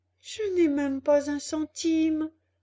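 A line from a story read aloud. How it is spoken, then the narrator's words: Sad reply. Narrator (French): répondit Pinocchio tristement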